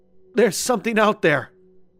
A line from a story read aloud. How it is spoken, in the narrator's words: Derek cried